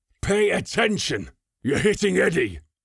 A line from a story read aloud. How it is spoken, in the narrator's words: Kronig bellowed